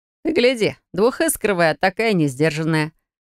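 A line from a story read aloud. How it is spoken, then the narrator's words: Chuckle from the side. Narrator (Russian): Хохотнул кто-то сбоку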